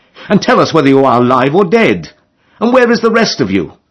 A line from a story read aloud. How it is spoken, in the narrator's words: he cried